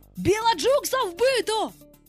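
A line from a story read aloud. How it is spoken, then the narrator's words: Alarmed group shouting. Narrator (Ukrainian): сполохано закричали пірати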